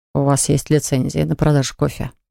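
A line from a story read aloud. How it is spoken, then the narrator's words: Grumbled. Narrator (Russian): проворчал Малкольм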